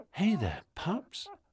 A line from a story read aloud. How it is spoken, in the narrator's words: Michael, whispering